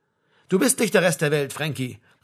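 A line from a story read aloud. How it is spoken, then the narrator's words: Calling from behind. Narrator (German): rief von hinten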